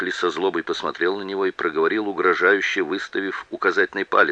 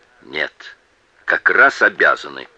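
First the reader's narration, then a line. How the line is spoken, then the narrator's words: Cold, sneering reply. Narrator (Russian): холодно ответил ему Кроуэлл с издевательской усмешкой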